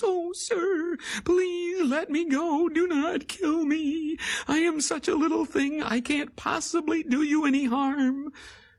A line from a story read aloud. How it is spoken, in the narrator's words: The flea was terrified, and he begged in his tiny, whimpering voice